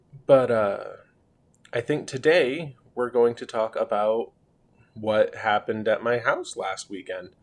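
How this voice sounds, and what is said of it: Voice affected by a cold. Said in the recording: “Please excuse my voice, I am recovering from a cold.”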